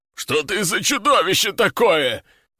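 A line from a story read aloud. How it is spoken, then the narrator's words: Howled. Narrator (Russian): взвыл рогатый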